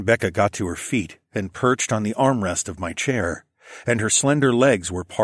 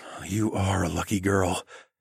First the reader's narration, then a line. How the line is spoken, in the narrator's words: I whispered